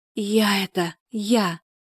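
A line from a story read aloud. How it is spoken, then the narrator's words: Moan. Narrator (Russian): простонала Тамара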